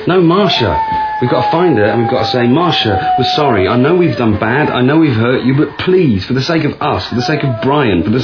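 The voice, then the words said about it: Whiny pleading voice. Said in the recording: “Maybe not in such a whiny voice.”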